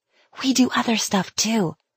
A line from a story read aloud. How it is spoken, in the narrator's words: she whispered